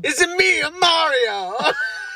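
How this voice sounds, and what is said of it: Exaggerated put-on Italian accent. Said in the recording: “I do a good Italian accent... that's the most racist Italian accent ever.”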